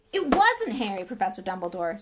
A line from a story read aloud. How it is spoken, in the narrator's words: said Hagrid urgently